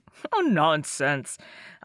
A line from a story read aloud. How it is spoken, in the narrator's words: I laughed